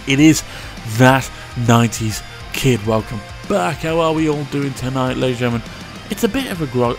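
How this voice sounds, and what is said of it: Mellow, laid-back voice. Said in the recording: “I'm feeling very mellow today, if you can tell by my voice.”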